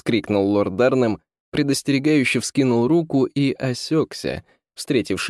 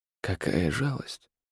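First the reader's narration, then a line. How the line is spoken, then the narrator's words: Flat, indifferent. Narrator (Russian): бесстрастно сказал граф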